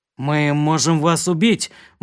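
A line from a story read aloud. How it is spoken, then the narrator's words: Grim. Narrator (Russian): мрачно сказал Кирк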